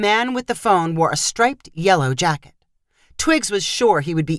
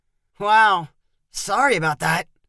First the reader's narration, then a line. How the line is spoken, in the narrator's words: Twiggs said to Chloe in a pained voice